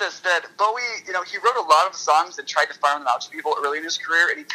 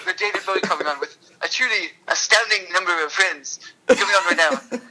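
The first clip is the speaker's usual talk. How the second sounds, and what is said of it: Early seventies BBC comedy presenter voice. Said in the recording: “early seventies BBC comedy ... my now my favorite impression”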